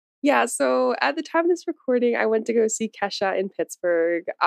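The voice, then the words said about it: Scratchy, hoarse voice. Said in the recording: “my voice is so scratchy, because I went to that concert and I was screaming, I was singing”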